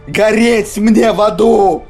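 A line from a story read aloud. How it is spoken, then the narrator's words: Shouting. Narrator (Russian): закричал он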